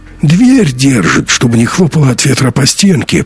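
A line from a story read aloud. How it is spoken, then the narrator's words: Hoarse-voiced explaining. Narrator (Russian): пояснил хрипун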